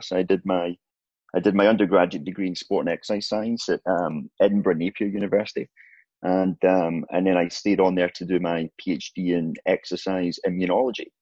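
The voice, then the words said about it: Scottish Glasgow accent. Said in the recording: “I know the accent might be a little bit of, a bit confusing ... So I'm from Glasgow”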